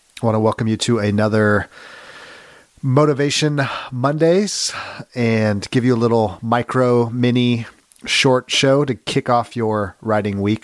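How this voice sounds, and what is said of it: Voice sounds sick. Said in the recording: “You might hear it in my voice. I've come down with a little bit of a sicky poo.”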